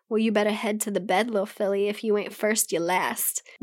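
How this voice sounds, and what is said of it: Put-on Southern US accent. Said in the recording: “He put on a southern accent”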